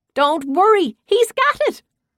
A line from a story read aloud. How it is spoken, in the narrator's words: a woman yelled out